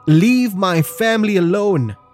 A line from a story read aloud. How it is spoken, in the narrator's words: yelling